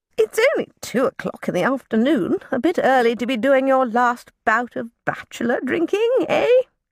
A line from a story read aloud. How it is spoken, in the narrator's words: cackled Aunt Plony